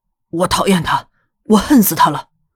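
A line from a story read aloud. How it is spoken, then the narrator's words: Resolute, resentful declaration. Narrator (Chinese): 瑞德斩钉截铁的，甚至有些怨怒的断定道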